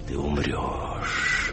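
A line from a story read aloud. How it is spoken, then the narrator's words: Hissing voice inside head. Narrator (Russian): продолжало шипеть в моей голове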